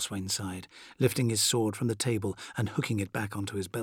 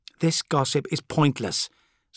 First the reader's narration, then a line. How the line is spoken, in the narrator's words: snapped Corswain